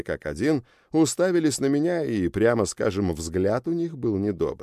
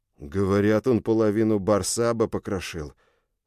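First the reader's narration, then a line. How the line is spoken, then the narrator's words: Forced out, strained. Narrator (Russian): выдавил второй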